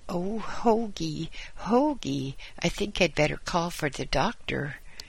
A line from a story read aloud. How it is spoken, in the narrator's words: exclaimed Mrs